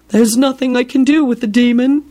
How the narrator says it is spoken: Binns moaned

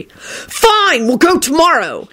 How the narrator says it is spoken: he screeched

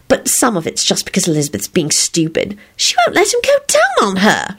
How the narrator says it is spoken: she burst out excitedly

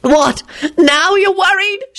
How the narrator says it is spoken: she practically shrieked

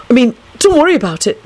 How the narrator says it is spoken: he added hastily

